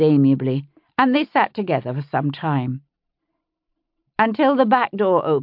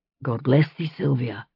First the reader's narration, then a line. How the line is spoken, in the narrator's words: he said softly